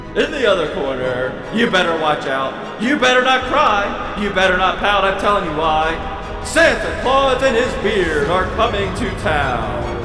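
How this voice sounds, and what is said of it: Boxing announcer voice. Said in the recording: “announcer voice”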